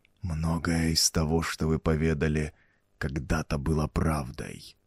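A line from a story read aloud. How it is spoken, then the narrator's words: Ominous whisper. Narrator (Russian): проговорил царь зловещим шепотом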